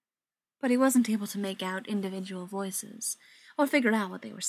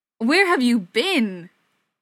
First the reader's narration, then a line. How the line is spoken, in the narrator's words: Tom yelled